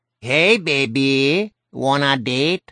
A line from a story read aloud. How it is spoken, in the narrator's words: in a Mexican accent that made him sound like Speedy Gonzales